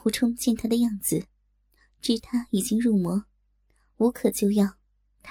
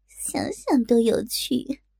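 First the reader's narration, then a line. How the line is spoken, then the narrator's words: Irrepressible laughter. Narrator (Chinese): 忍不住笑道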